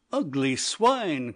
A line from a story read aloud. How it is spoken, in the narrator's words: cried one of the men